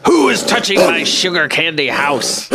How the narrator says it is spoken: He growled out

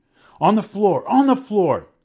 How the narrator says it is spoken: Sekou shouted

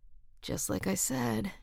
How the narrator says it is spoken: murmured against her hair

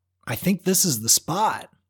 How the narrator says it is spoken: called out

